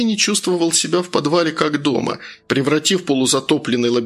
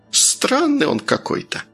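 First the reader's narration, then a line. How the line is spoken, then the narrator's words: Thoughtful cleaning woman. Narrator (Russian): задумчиво произнесла уборщица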